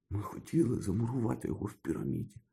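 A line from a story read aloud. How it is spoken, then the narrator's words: Whispered. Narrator (Ukrainian): прошепотів він Гаррі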